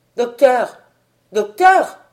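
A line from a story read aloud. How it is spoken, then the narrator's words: Shouting. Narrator (French): criai-je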